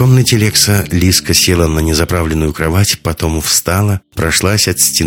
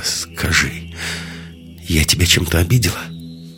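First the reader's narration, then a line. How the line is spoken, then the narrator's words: Slightly trembling question. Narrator (Russian): чуть дрожащим голосом спросила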